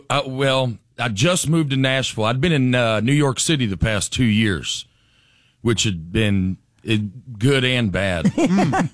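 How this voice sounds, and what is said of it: Southern US (North Alabama) accent. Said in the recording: “let's pinpoint the accent right away. You grew up where? ... North Alabama ... My accent catches some strays in New York City”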